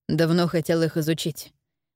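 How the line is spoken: Calm, detached. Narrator (Russian): объяснил он спокойно и отстраненно

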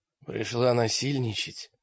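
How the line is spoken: Hoarse rasp. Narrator (Russian): прохрипел Олег

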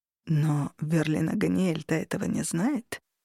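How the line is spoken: Quiet objection. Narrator (Russian): тихо возразил Хартат

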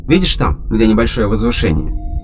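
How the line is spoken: Plain. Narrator (Russian): спросил Кейн

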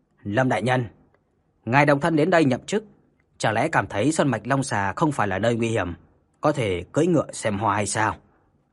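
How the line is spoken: Cold, displeased voice. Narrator (Vietnamese): ông ta đã cau mày lạnh lùng nói

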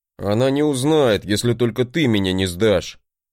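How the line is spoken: Grumbling. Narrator (Russian): проворчал брат

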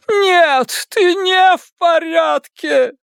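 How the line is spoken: Moaning. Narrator (Russian): простонала миссис Касбрэк

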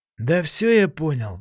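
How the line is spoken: Sighing. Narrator (Russian): вздохнул Савельев

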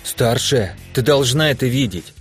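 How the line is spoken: Agitated voice. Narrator (Russian): сказала взволнованным голосом Лана

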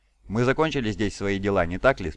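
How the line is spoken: Plain. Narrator (Russian): спросил Таргадон

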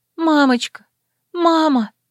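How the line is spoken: Sobbing. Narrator (Russian): Собственные рыдания

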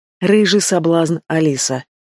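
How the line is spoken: Hoarse whisper. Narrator (Russian): хриплый шепот

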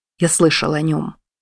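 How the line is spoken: Quiet. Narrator (Russian): тихо сказал Ори

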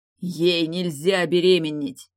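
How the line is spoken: Booming, loud. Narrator (Russian): прогремел голос Дали во всеуслышание

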